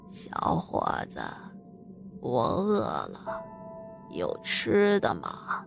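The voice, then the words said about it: Hoarse, raspy old woman's voice. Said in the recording (Chinese): “用很沙哑的声音说”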